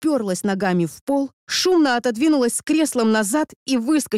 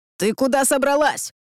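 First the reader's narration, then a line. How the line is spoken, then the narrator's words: Barked. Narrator (Russian): рявкнул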